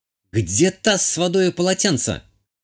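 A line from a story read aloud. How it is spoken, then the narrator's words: Shouting. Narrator (Russian): прокричала Азалия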